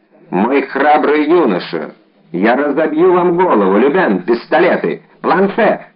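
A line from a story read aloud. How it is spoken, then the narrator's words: Plain. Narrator (Russian): сказал Д'Артаньян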